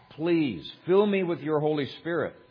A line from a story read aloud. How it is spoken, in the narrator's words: she cried out to God